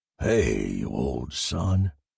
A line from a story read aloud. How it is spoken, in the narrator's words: growled